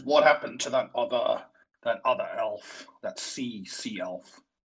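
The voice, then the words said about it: Character voice with put-on accent. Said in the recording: “I am enjoying the accent. ... It's evolving. It's evolving. ... It's a work in progress.”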